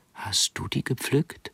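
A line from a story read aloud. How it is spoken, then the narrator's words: Hoarse, barely audible whisper. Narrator (German): Ihre Stimme war ein heiseres Wispern, die Worte kaum zu verstehen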